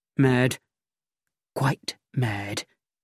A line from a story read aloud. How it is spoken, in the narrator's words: Melchett whispered to me